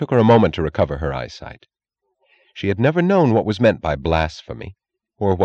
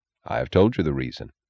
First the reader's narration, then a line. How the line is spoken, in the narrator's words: he answered gravely